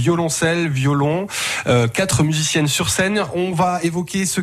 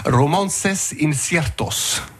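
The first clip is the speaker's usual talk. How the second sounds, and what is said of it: Attempted Spanish accent. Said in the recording (French): “je vais essayer de prendre mon meilleur accent espagnol”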